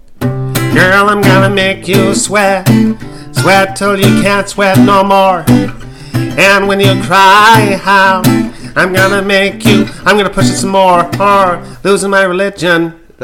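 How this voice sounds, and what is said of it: Muppet-like singing impression. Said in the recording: “Do it in the style of Michael Stipe from R.E.M. ... You sound like a Muppet version of Michael Stipe.”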